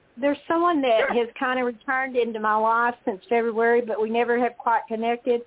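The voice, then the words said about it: Texan accent. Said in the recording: “from Texas. Oh, I love your accent”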